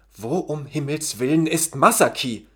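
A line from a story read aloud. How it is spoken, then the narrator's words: Angry outburst. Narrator (German): platzte der leicht aufbrausende Yukio Ishikawa mit zorniger Stimme heraus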